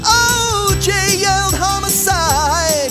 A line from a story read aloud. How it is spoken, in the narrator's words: The king stomped up and cried